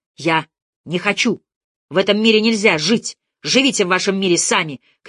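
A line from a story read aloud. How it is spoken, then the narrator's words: Shouting. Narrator (Russian): кричал Барыбин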